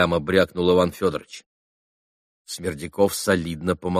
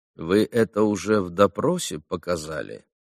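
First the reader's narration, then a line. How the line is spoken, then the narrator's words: Calm curious question. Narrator (Russian): спокойно полюбопытствовал Смердяков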